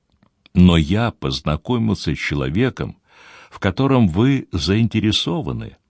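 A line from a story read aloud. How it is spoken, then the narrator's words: Soft, after a pause. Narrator (Russian): после короткой паузы мягко продолжил Деронда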